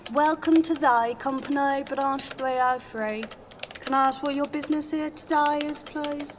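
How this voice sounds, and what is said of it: Speaks with a distinctive accent. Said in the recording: “That's a beautiful accent, by the way.”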